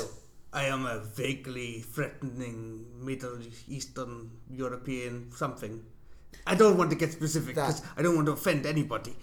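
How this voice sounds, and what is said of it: Put-on foreign accent. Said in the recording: “if you've got a foreign accent ... I have an accent”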